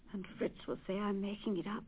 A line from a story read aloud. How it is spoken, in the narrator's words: she sighed